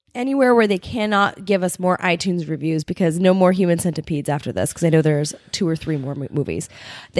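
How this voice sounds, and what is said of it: Hoarse, worn-out voice. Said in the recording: “You can hear my voice is already gone”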